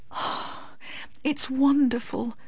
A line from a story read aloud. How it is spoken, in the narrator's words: murmured Miss Medhurst